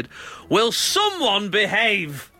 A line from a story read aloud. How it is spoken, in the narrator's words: He just shouted